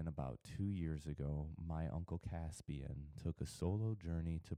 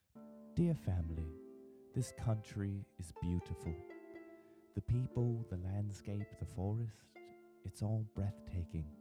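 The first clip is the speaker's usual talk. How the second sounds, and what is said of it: Weak put-on British accent. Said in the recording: “please excuse my sorry, like, excuse for a British accent”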